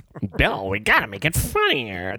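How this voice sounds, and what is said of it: Imitates another person's voice. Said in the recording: “does a good impression ... based on Lorne Michaels”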